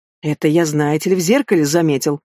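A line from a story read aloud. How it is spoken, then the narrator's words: Irritated grumble. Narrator (Russian): с раздражением буркнул Рорх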